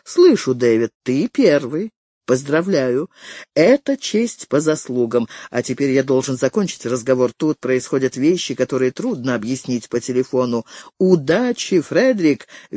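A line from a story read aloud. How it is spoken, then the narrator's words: Cheerful wish. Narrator (Russian): весело пожелал Дэвид Пирсон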